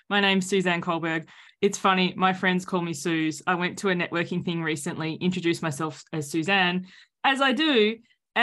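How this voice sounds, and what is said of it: Australian accent. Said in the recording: “everyone can hear the accent now... I'm joining you from Sydney, Australia”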